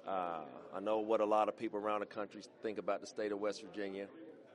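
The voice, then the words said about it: West Virginia country twang. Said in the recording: “my country twang”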